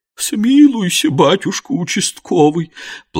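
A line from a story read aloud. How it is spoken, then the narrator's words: Tearful sobbing. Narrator (Russian): плаксиво всхлипнула вдова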